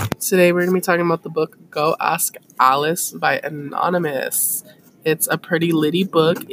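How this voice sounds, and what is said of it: Usual voice. Nothing is said of it.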